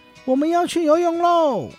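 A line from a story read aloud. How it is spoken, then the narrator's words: Excited shouting. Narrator (Chinese): 他们喊着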